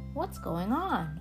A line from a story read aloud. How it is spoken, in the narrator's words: muttered